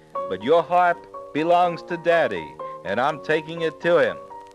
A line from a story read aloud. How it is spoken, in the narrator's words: cried Jack